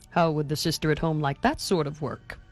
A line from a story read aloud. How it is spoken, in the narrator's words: asked Mr